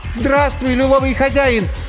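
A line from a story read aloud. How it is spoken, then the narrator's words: Shouted in a trembling voice. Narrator (Russian): крикнула Ирина дрожащим голосом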